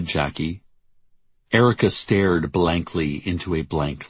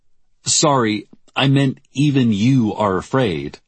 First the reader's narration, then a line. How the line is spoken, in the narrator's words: she articulated loudly for the listening devices